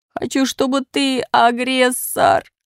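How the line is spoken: Sobbing. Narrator (Russian): рыдает Пичуга

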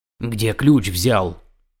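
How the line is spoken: Hoarse. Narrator (Russian): хрипло спросил Толстый

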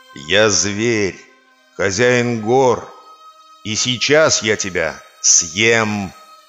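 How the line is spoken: Growling tiger. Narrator (Russian): прорычал тигр

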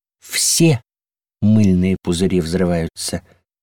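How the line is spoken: Soft reply. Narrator (Russian): мягко заметили в ответ

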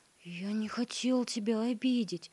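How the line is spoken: Frightened mutter. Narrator (Russian): испуганно пробормотал Гвоздик

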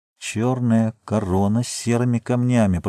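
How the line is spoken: Muttered. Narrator (Russian): пробормотал он

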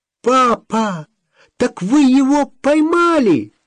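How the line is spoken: Yelling. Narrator (Russian): завопила Олеся

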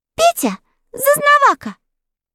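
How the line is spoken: Clear ringing little voice. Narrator (Russian): прозвенел своим чистым голоском Непоседа

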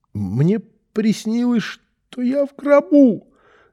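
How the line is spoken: Unusually high-pitched voice. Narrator (Russian): сказал Рубчик таким высоким голосом, каким не говорил никогда

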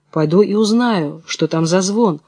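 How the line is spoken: Plain. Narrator (Russian): сказал старший

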